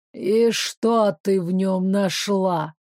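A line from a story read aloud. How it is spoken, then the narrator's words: Unpleasant-voiced question. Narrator (Russian): поинтересовалась Недоля своим неприятным голосом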